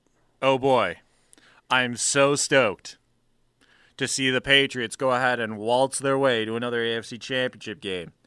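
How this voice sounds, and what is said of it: Sarcastic mock excitement. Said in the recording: “Can you tell the excitement in my voice?”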